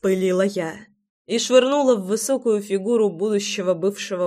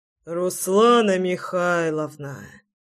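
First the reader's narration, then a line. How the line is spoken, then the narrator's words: Sighing. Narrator (Russian): вздохнул Шульц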